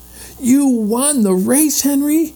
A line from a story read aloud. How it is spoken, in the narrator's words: cried Jesse, delighted